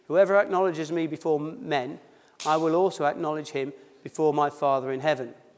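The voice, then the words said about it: Accent that drops H sounds. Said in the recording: “I dropped my H's. That's my accent.”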